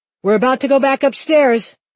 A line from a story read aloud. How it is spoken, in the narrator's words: Dad said loudly